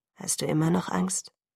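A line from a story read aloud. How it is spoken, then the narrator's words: Murmuring. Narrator (German): murmelte er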